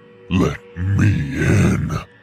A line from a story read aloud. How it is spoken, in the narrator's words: the voice completely changed from pleasant to this deep, demonic growl and screamed